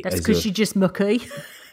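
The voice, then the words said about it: Put-on West Midlands accent. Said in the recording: “That's actually quite a good West Midlands accent.”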